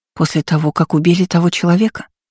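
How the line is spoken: Slurred mumble. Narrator (Russian): пробормотала Лола заплетающимся языком

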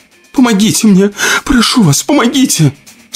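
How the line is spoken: Tearful lament. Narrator (Russian): Сквозь слезы причитала она

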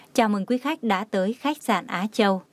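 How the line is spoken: Gentle smiling welcome. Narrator (Vietnamese): mỉm cười hơi khom lưng gật đầu, cúi đầu chào quý khách, đồng thời nhẹ nhàng nói

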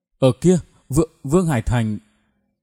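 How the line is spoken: Frightened, panting. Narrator (Vietnamese): Anh ta mồ hôi đầm đìa, vẻ mặt hết sức sợ hãi, vừa thở gấp vừa nói

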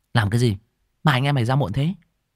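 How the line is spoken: Reproachful. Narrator (Vietnamese): Tôi nói bằng giọng trách móc

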